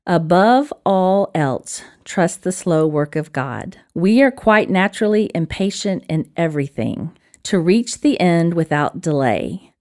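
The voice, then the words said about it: Alabama accent. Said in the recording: “in my little Alabama accent.”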